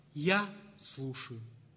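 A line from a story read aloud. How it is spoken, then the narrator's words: Very calm answer. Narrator (Russian): И мать Тереза очень спокойно, в свойственной ей манере, отвечала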